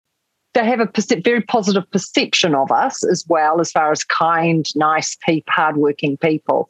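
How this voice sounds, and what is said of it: New Zealand accent. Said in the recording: “New Zealanders ... we tend to have an accent that people can understand all around the world ... my accent's been described from everything from quaint to posh to sexy”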